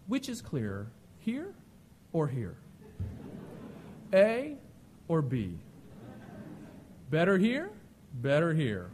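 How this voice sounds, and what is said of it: Very calm eye doctor voice. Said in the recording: “in that very calm voice,”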